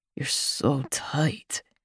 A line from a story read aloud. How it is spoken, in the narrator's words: groans